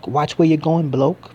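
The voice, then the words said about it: Poor cockney accent imitation. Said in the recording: “sounded like him ... Forgive me for the poor sort of cockney accent.”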